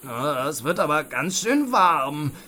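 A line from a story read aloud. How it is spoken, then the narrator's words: Whining. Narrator (German): jammerte Raubritter Ralle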